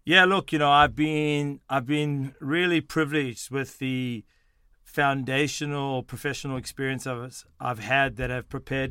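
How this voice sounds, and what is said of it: South African-Australian accent. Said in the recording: “People are probably wondering about my accent ... I was born in South Africa, in Johannesburg, South Africa. I moved to Sydney, Australia at the age of 12”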